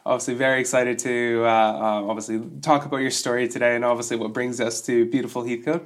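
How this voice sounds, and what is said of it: Deep, rough voice from a cold. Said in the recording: “my voice is sounding a little bit off still. I'm recovering from a bit of a bout of man flu... I'm coming in the baritone voice today... my voice is a little bit out”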